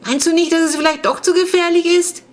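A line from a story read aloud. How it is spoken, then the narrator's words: Calling after someone. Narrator (German): rief ihm nach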